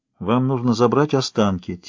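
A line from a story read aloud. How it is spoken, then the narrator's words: Quiet. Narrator (Russian): тихо сказал Фокс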